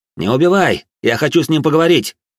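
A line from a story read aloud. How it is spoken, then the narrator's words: Shouted after someone. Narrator (Russian): Крикнул вдогонку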